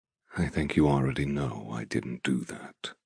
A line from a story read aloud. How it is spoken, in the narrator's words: tells me softly